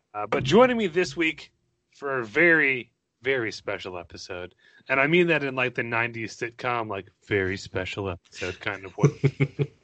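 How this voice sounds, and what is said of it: Voice sounds unwell. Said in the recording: “Please forgive my voice, I'm a bit under the weather.”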